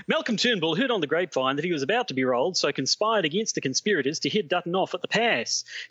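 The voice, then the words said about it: Thick put-on Australian accent. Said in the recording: “in your thickest Australian accent, please”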